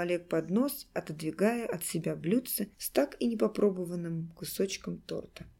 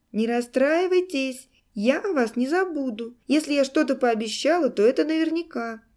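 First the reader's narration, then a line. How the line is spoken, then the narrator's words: Shouting after them. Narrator (Russian): кричала им вслед тетя Женя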